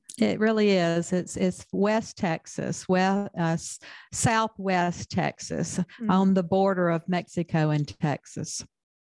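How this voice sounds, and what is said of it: Southern US accent. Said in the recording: “I have too much of a Southern accent to read it.”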